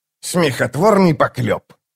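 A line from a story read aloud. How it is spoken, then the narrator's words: Scoffing sorcerer. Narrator (Russian): фыркнул чародей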